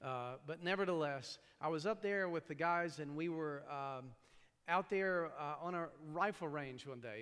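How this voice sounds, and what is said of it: East Tennessee accent with New York traces. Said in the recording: “if I don't sound like I'm from New York, it's because I grew up in East Tennessee. So every now and then there might be a little bit of a New York thing, and then the rest of the time it's pure hillbilly... it's a very confused accent... my accent's probably somewhere around Delaware”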